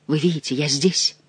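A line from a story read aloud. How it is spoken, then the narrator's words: Kneeling whisper. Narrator (Russian): прошептал коленопреклоненный Бюсси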